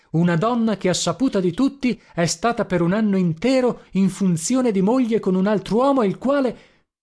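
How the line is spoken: Angry exclamation. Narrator (Italian): esclamai irosamente

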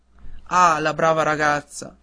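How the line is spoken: Father exclaiming. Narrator (Italian): esclamò il padre

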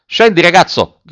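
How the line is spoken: Shouted. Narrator (Italian): gridò l'ufficiale

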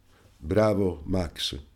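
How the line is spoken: Exclamation. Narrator (Italian): esclamò il signor Anselmo

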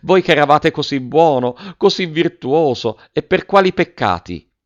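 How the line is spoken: Exclamation. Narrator (Italian): esclamò la signora Geltrude

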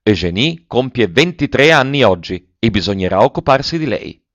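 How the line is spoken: Cheerful shout. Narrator (Italian): L'ex sindaco gridò gaiamente

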